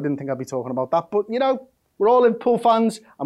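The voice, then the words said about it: Liverpool accent. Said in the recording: “why do most Liverpool fans have this accent? It's because it's our accent.”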